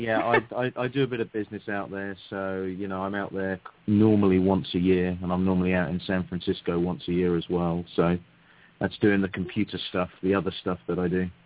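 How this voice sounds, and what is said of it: British London accent. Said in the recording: “you are actually from London ... you all like my accent ... We love the accent.”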